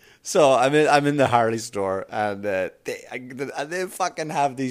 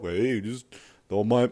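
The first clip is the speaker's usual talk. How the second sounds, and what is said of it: Chubby character voice. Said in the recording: “doing a fat voice... My voice is chubby”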